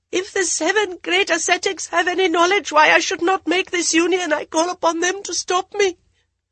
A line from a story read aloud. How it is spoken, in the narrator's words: Drawing a deep breath, Jaya managed to gasp